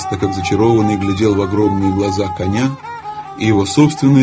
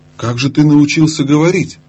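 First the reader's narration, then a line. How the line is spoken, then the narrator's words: Exclaimed. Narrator (Russian): воскликнул он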